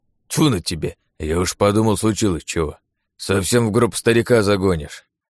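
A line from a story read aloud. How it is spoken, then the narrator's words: Grumbling old man. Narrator (Russian): Проворчал дед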